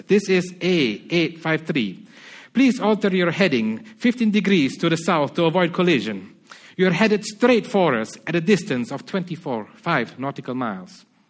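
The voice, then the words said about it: Put-on Spanish accent. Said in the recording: “I'm going to try to put on a Spanish accent when I read to Spanish people”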